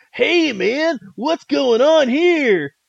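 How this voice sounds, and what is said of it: Imitates Ninja Turtle character voice. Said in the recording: “That's a good impression.”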